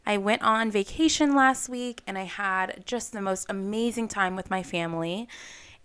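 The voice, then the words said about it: Hoarse, strained voice. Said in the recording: “As you can hear, my voice might sound a little bit different... I lost my voice screaming on rides”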